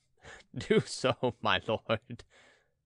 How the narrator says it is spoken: replied the host, laughing

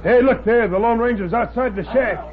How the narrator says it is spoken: Tack Miller yelled

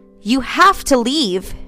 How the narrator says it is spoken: Isabella said desperately

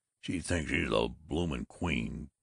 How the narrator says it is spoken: growled Babbitt

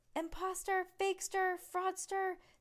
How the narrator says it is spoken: Stink squeals

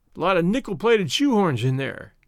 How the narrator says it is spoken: said Jimmy, coolly

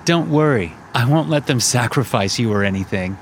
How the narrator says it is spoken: Connor said, laughing

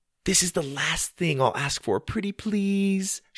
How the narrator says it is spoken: she pleaded

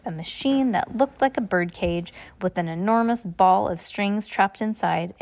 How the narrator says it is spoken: Klaus exclaimed

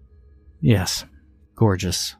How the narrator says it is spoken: I mumbled

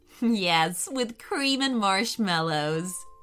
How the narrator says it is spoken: giggled Riley

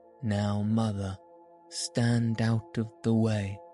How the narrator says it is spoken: said he

